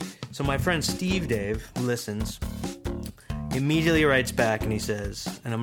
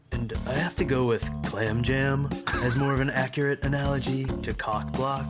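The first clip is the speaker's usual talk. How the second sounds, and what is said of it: Imitates another person's voice. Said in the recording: “I'm going to do my best impression of him”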